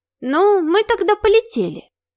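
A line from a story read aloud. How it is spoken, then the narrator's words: Innocent little voice. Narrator (Russian): невинным голоском спросила незабудка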